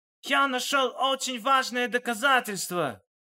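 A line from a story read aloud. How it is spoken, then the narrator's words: Shout. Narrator (Russian): крикнул он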